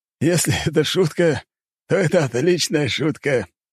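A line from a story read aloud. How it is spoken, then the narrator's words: Laughing. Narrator (Russian): рассмеялся он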